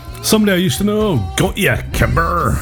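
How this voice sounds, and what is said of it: Put-on Cornish accent. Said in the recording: “in a Cornish accent”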